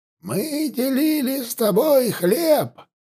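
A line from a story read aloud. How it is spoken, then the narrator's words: Quavering old man's proclamation. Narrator (Russian): дребезжащим голосом провозгласил древний Астхи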